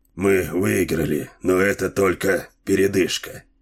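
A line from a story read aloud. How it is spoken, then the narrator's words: Flat, colorless voice. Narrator (Russian): бесцветным голосом произнес капитан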